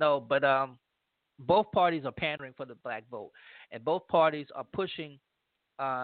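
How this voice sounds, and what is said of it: Usual voice. Nothing is said of it.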